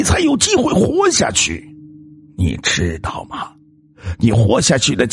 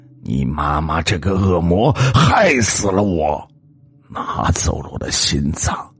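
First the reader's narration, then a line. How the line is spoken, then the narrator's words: Grating, laughing voice. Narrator (Chinese): 那个人的笑声非常的刺耳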